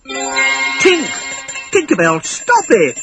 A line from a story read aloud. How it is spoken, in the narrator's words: cried Peter